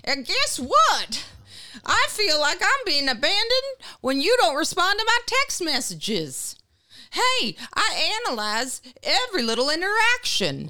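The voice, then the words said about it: Put-on accent for a character. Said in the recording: “character work ... accents”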